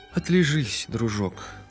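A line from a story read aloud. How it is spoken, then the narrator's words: Sighing woman. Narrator (Russian): вздохнула фрау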